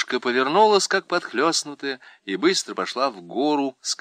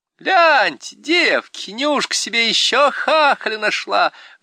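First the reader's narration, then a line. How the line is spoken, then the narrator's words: Shrill female shout. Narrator (Russian): визгливо крикнула одна из попутчиц, высокая, в темно-красном платке с цветами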